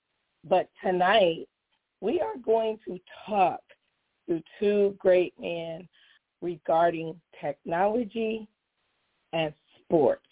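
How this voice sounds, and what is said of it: Hoarse, strained voice. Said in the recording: “Excuse the voice. ... this sports mom was yelling at a game”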